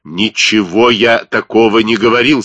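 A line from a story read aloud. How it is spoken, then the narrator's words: Angry. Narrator (Russian): сказал он сердито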